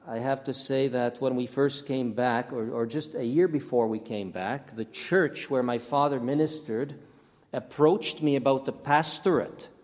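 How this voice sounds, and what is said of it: Canadian-accented English. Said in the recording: “why I speak with a Canadian accent, or Canadian English”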